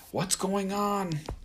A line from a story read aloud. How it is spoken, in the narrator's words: I shouted